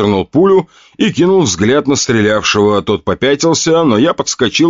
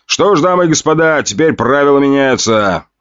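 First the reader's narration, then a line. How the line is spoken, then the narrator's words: Loud. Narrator (Russian): громко заговорил я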